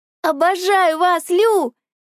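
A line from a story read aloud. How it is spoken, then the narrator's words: Shouted with overflowing love. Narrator (Russian): крикнула я от прилива какой-то непонятной вселенской любви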